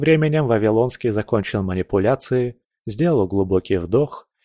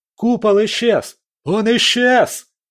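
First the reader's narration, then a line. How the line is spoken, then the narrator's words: Shout from crowd. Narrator (Russian): закричал кто-то из толпы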